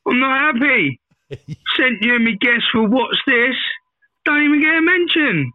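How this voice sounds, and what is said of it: Southern English accent, pirate-like. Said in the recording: “That is the most amazing accent we've ever had ... that is Hampshire ... That sounded pirate ... It sounds very southern ... it sounds like a ... is a pirate”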